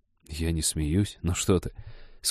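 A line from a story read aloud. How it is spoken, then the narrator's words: Garbled mumbling. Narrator (Russian): скомканно пробормотал Женька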